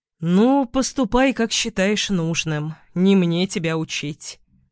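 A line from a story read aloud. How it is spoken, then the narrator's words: Sigh. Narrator (Russian): вздохнул Кирьянов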